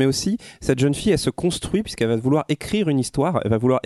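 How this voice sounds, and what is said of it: Usual voice. Nothing is said of it.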